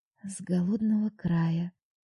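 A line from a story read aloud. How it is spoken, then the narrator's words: Whispered in ear. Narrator (Russian): прошептала я на ухо подруге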